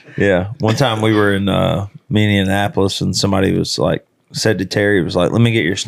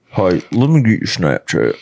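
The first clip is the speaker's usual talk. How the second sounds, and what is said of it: Imitates another person's voice. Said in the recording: “do the McElwain. Let me get your Snapchat impression.”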